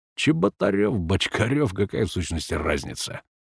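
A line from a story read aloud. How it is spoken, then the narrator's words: Scoffing grunt. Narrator (Russian): хмыкнул Семен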